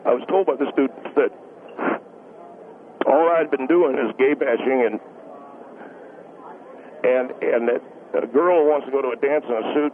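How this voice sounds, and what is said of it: Emotional, voice strained with pauses. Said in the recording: “It's a little bit emotional.”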